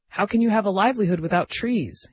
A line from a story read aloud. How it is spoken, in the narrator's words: He exclaimed